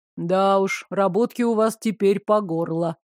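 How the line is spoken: Grim remark. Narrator (Russian): мрачно отметил

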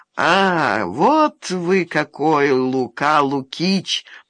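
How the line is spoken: Curious drawl. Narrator (Russian): протянул Бестужев с нешуточным любопытством

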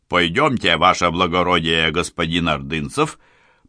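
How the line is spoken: Booming drone. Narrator (Russian): прогудел Саенко

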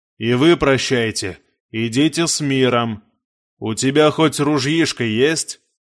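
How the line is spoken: Plain. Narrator (Russian): спросил кто-то напоследок

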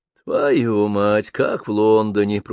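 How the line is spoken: Grumbling. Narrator (Russian): проворчал им вслед постовой у входа в участок

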